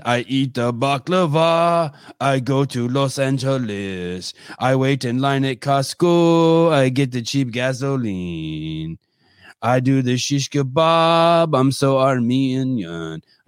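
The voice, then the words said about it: Armenian-accented put-on voice. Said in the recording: “talking in my dad's accent”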